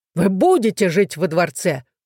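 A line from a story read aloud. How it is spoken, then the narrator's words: Roaring king. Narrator (Russian): взревел король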